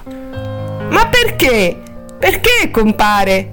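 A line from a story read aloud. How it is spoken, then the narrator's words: Troubled whimper. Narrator (Italian): piagnucolò Helen, turbata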